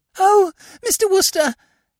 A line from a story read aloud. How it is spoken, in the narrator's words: said the girl in a gasping sort of way